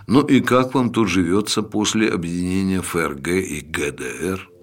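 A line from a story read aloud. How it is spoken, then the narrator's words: Quiet. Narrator (Russian): негромко произнес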